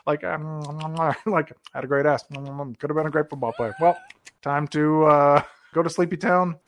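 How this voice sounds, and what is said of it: Poor imitation of another person's voice. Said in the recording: “I'm doing like a terrible Elvis impersonation”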